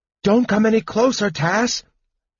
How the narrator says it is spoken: Palin cried fearfully

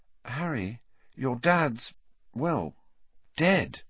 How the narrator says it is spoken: she said quietly

